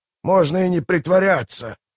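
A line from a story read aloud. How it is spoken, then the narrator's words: Growled. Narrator (Russian): прорычал Мураш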